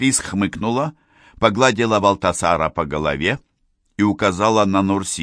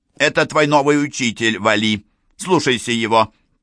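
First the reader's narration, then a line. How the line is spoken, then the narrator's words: Loud. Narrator (Russian): Валтасар громко спросил у писца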